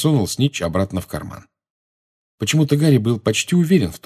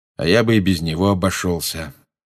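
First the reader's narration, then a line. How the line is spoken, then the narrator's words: Gloomy, muffled. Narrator (Russian): мрачно сказал Люпин из-за своей книги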